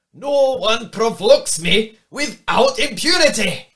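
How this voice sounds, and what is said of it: Put-on Scottish accent. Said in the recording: “Should I put this in Scottish accent? ... Like a Braveheart accent. ... That was awesome.”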